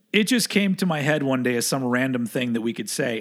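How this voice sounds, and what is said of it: Rough, hoarse voice. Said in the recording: “you can hear my voice is kind of rough, but I got my second COVID shot yesterday and I am rough”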